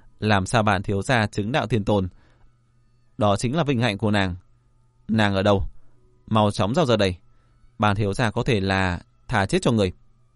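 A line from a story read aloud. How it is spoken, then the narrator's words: Laughing loudly. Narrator (Vietnamese): Phong Thiên Dương cười lớn nói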